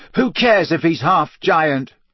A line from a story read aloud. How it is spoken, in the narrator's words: Harry shouted